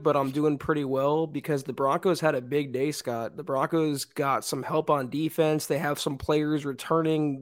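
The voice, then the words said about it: Hoarse, fading voice. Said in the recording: “I'm losing my voice, it sounds like”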